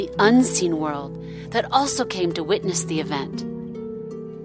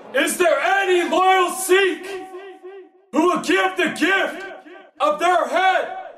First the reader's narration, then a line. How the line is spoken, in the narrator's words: roared